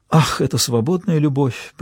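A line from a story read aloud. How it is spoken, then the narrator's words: Feigned sigh. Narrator (Russian): притворно вздохнула Берилл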